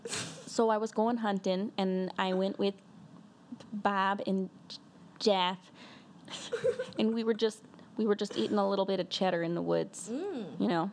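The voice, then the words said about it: Put-on Wisconsin accent, sounding southern. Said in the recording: “If you could do a Wisconsin accent, let's hear your Wisconsin accent ... You did like a southern accent”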